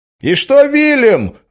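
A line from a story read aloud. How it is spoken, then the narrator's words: Shout from audience. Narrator (Russian): выкрикнул кто-то из зала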